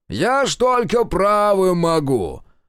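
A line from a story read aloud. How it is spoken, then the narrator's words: Loud shouting, feigning deafness. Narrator (Russian): Орал Максим Петрович на всю машину, старательно изображая слабослышащего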